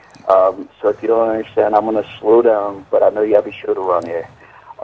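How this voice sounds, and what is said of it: American Eastern accent. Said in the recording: “You have to disregard my Eastern accent.”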